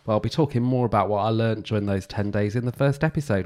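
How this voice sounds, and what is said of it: Slightly nasal, congested voice. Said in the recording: “I am still a little bit nasally now, so that's why my voice sounds a little bit different.”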